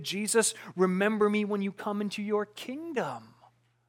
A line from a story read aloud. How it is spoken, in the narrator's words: he pleaded